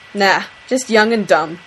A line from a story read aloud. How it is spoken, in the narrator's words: Dean snorts in response